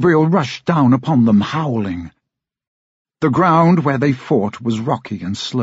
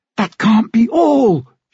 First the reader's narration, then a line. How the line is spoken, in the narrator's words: she cried